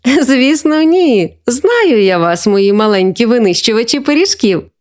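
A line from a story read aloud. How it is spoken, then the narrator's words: Laughing grandmother. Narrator (Ukrainian): засміялася бабуся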